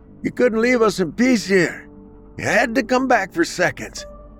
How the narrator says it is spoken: one man yelled

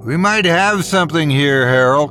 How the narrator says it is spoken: I shouted out bitterly over the sound of the lapping waves

